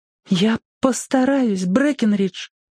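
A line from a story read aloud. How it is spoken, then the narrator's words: Moved, agitated. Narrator (Russian): тронутая моим благородством, взволнованно ответила она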